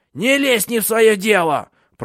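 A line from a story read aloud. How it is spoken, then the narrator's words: Piercing old woman's scream. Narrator (Russian): пронзительно закричала старуха так, что мороз продрал по коже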